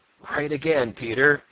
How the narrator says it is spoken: laughed Old Mother Nature

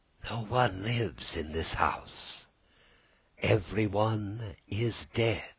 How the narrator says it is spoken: With a voice so weak it could hardly be heard, she whispered

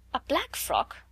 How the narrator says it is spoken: Miss Amelia stammered again

